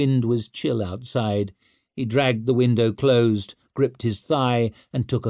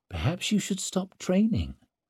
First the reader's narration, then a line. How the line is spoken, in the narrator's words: she said softly